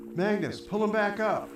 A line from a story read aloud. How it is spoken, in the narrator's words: Gary yelled from the bridge